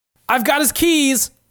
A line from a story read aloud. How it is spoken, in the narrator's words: yells Steve